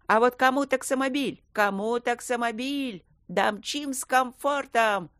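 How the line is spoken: Loud nasal voice through megaphone. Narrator (Russian): Громко предлагал гнусавый голос в жестяной рупор

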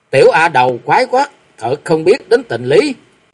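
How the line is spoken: Angry shout in unison. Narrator (Vietnamese): Từng người trong bọn Quy Sơn Tứ Kiệt phát giận, không hẹn cùng quát lên nói

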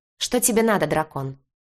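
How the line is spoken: Rather rude. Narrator (Russian): довольно грубо проговорила она

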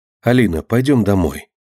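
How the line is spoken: Gentle mother. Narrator (Russian): ласково сказала мама

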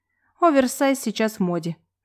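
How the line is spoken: Sad sigh. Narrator (Russian): вздохнула я

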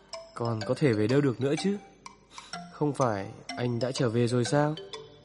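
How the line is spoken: Stunned, lowered voice. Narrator (Vietnamese): Anh sững người, hạ giọng

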